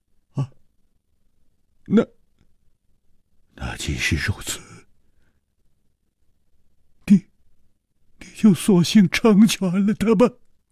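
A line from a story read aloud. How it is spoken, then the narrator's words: Stunned, hoarse. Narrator (Chinese): 李玉涵愣了半天，哑声说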